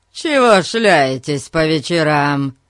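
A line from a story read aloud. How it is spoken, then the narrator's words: Growl. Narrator (Russian): прорычал он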